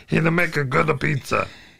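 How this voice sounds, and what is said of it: Exaggerated fat Italian-style character voice. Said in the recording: “I'm going to make this voice now. I don't know why I'm talking like this, but I'm using the fat voice, and I'm trying to sound like a Luigi Primo from the wrestling. ... that's not a racist Italian voice, because I am doing a Luigi Primo voice.”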